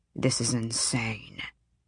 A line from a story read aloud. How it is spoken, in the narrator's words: Tern murmured to Harding